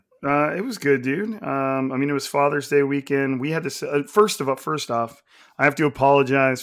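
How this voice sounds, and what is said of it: Raspy, nasal, strained voice. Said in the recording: “my voice isn't bad enough on the regular. You know, the whole Kermit and Ray Romano thing ... I do not have my co- coaching voice right now ... losing my voice ... if I sound raspier than normal and a bit more nasally than normal”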